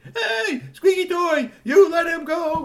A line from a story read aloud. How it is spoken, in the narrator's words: screaming